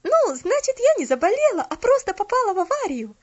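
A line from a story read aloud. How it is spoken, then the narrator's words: Relieved exclamation. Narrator (Russian): С облегчением воскликнула Поллиана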